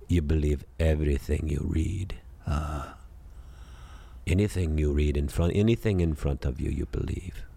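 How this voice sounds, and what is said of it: Imitates another person's voice. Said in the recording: “my great Christopher impersonation”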